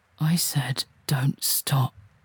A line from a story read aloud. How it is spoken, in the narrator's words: he growls